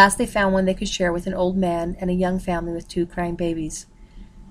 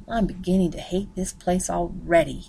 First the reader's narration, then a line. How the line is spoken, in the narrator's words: she murmured